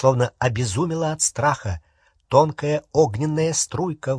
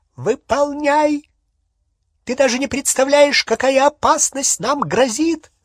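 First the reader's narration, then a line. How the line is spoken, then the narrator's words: Shrieking. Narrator (Russian): завизжала Беллатриса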